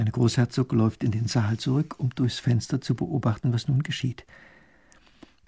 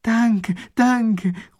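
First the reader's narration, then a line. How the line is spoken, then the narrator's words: Enthusiastic call. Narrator (German): ruft der Eskimo begeistert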